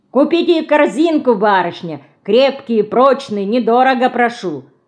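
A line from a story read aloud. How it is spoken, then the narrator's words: Loud speech. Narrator (Russian): Громко говорит он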